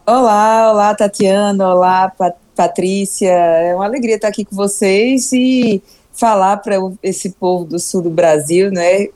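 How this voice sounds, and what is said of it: Warm Northeastern Brazilian accent. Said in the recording (Portuguese): “o sotaque da senhora traz aquele calorzinho, sabe? ... aquele calor que só tem nas praias do Nordeste”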